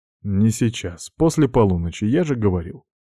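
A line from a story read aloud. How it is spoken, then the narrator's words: Calm male reply. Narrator (Russian): ответил он спокойно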